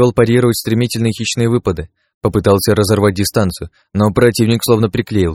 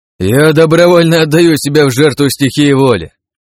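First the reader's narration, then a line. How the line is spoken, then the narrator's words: Sudden loud joyful shout. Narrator (Russian): Неожиданно громко с весельем в голосе крикнул Крат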